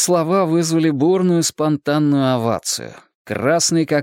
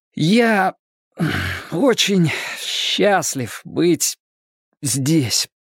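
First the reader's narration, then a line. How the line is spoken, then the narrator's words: Trembling voice. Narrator (Russian): дрожащим голосом начал Брэд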